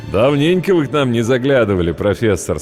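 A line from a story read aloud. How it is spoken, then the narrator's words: Plain. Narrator (Russian): сказал Майк, бармен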